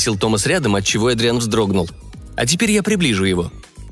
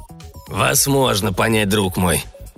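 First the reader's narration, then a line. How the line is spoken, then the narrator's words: Sigh. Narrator (Russian): вздохнул Блейк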